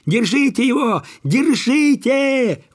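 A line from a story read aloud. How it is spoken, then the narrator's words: Crowd yelling. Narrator (Russian): вопили все, кто выбежал из поварни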